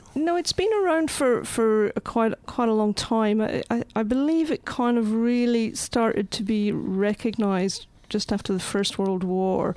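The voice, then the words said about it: Scottish accent. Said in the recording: “studying this art therapy 17 years ago in Scotland. Mm. So there's a hint to the accent.”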